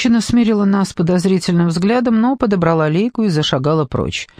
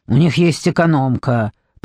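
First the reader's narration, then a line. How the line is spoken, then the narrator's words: Grumbled. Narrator (Russian): проворчал Мур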